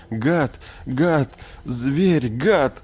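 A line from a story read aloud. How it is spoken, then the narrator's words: Sobbing, repeating. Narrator (Russian): Томми на заднем сиденье всхлипывал, повторяя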